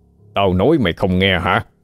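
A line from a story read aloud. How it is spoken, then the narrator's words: Harsh, menacing. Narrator (Vietnamese): Cả đại ca gằn giọng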